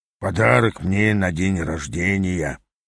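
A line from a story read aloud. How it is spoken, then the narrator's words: Mutter. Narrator (Russian): пробормотал Ас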